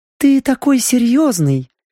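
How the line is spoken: Cooed. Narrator (Russian): проворковала Вивьен

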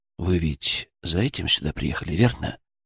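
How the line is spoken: Soft, almost sympathetic. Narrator (Russian): Мой голос прозвучал мягко, почти сочувственно

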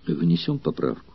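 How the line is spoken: Calm reply. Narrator (Russian): спокойно ответил Спартак

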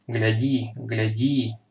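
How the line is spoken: Whisper through clenched teeth. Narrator (Russian): сквозь стиснутые зубы прошептал Магин

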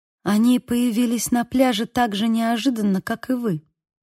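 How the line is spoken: Quiet. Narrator (Russian): сказала она тихо

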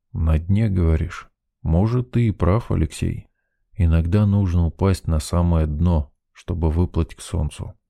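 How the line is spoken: Muttered. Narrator (Russian): пробормотал Мичман

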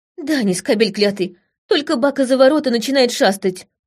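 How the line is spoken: Spat angrily. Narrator (Russian): выплюнула Ита зло

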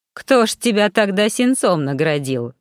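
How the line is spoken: Snorting. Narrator (Russian): хмыкнул Гордей

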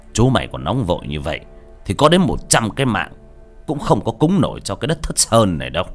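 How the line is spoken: Stern yet amused. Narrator (Vietnamese): Chiến danh vừa cười nghiêm giọng

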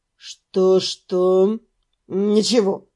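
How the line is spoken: Mutter. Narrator (Russian): пробурчал тот

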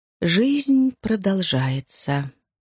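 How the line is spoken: Slow repetition. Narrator (Russian): медленно повторила мисс Харкарт

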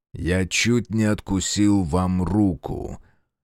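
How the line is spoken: Forced through teeth. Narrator (Russian): выдавил сквозь зубы Фергус

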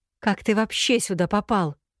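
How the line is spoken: Trembling voice. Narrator (Russian): дрожащим голосом поинтересовалась она

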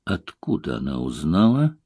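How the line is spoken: Gloomy question. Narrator (Russian): мрачно спросил

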